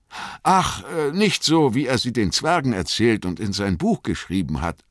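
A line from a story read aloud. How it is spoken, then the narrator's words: Plain. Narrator (German): sagte Frodo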